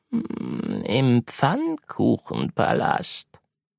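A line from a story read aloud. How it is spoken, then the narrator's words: Purring. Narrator (German): Melvin schnurrte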